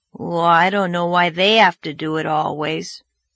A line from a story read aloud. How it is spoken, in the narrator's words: grumbled Davy